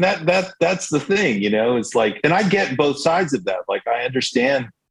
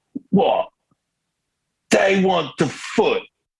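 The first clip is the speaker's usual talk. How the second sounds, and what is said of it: Imitates another person's voice, poorly. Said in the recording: “I'm just going to do a terrible impersonation of Keith Richards”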